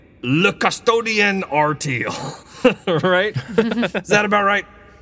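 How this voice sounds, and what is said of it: Put-on French lilt. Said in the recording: “Why did you add the French lilt?”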